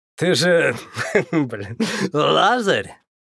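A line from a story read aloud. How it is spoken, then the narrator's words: Question after laughing. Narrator (Russian): Отсмеявшись, спросил игрок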